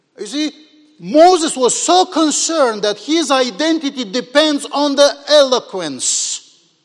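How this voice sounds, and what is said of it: Non-native English accent. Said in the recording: “as broken as I speak English ... my accent. My accent is the music I can produce, and I cannot change it.”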